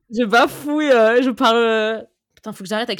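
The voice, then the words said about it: Poor put-on Marseille accent. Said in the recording (French): “l'accent marseillais ... En plus, c'est même pas un bon accent.”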